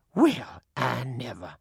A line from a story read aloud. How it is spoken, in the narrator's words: The other one snorted